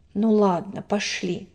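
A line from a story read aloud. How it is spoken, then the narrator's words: Decisive tone. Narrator (Russian): сказал Даник решительным тоном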